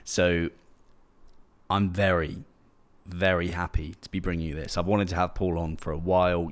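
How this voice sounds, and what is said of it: Unusually energetic, excited voice. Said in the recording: “I am absolutely buzzing ... you can probably hear that in my voice because I don't usually have this much energy”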